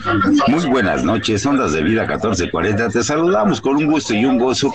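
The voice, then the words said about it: Radio announcer voice. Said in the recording (Spanish): “tiene voz de locutor.”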